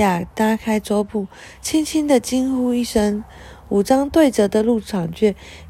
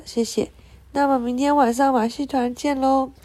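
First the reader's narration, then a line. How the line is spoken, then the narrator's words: Laughing. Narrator (Chinese): 苹果树女巫笑了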